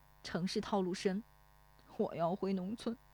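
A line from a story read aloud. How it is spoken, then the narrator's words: Low, choked with tears. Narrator (Chinese): 忽然又哽咽起来……低声对石丽华说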